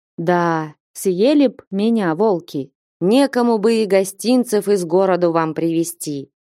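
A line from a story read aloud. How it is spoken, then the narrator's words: Gentle, affectionate. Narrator (Russian): ласково молвил Потап Максимыч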